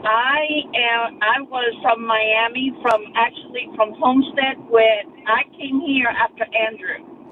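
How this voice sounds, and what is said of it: Noticeable regional accent. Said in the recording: “I sense an accent, a beautiful accent.”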